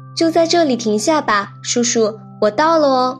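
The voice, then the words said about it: Crisp little girl's voice. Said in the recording (Chinese): “小女孩用清脆的声音说”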